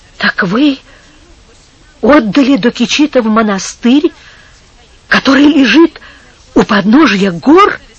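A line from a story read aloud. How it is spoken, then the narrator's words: Very agitated question. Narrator (Russian): спросил Антонио сильно взволнованным голосом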